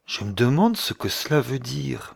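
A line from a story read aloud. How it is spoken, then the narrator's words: Murmuring. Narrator (French): murmura-t-il enfin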